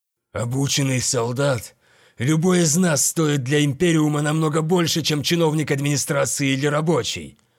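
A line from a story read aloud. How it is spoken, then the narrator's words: Growl. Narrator (Russian): прорычал он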